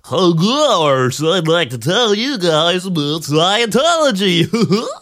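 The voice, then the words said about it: Goofy cartoonish radio voice. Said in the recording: “radio voice ... Sounds like Goofy. ... It sounds like Goofy Miscavige.”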